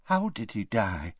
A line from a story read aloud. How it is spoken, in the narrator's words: whispered Tonks